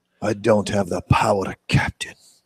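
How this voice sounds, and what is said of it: Bad put-on Scottish accent. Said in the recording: “That was the worst Scottish accent ever”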